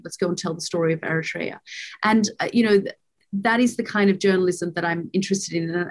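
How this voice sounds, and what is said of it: Australian accent. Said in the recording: “those stories being told by you in an Australian accent”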